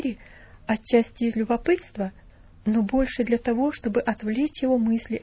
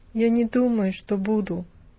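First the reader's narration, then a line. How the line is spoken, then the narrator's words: Indifferent tone. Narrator (Russian): ответил он тем же безразличным тоном, каким говорил и до этого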